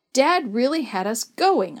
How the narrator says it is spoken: sputtered to myself as I tried hard not to burst out laughing

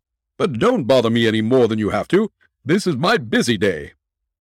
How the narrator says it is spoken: laughed Jones

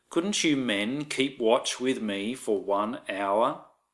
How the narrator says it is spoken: he asked Peter

